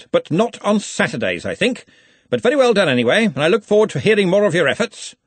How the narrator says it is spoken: he snapped

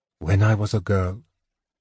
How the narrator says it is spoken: she said in her deep, low voice

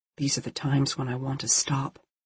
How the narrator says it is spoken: August whispered

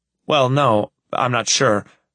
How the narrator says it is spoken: I start nervously

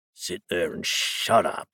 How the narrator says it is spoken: growled the man who'd hit Daisel

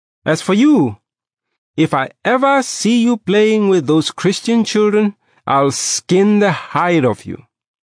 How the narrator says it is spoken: He then turned to me and shouted

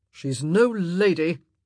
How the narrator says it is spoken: Anthony grumbled

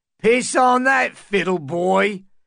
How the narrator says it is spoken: a grizzled squire shouted back

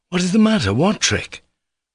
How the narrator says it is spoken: Alyosha cried, now thoroughly alarmed

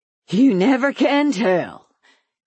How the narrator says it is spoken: he said, panting

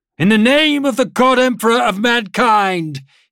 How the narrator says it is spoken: he shouted

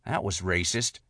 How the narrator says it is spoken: T whispered

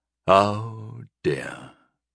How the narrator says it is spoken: I sighed

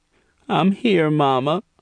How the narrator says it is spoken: Angel said tearfully

